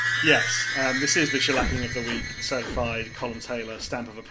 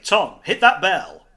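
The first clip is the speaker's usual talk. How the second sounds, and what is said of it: Imitates another person's voice. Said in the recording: “my best Colm impression”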